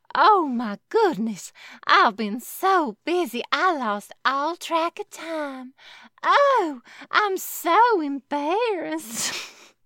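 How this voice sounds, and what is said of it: Bad put-on Southern accent. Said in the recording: “now she's having a southern accent ... It's a really bad one.”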